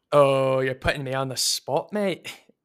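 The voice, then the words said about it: Attempted Scottish accent. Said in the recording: “Could you say that in a Scottish accent real quick? ... it's Scottish accent”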